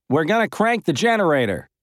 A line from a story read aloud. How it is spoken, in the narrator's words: called out